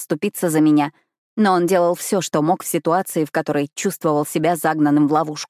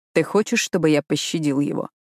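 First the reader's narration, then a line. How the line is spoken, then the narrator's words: Even-toned question. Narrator (Russian): спрашивает он ровным тоном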